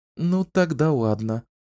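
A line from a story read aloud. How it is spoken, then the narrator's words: Sigh. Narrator (Russian): вздохнула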